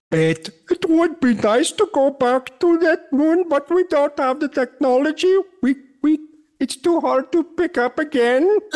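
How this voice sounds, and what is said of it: Put-on Indian accent. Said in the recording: “Do that in an Indian accent. ... Just Indian? ... that little speech in Indian. But Don Pettit-ish.”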